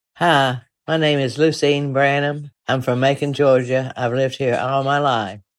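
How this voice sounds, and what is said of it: Southern drawl accent. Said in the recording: “she has a pretty representative version of the famous Southern drawl”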